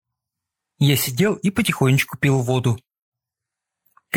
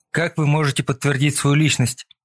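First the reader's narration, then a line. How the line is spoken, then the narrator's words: Plain. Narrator (Russian): спросил майор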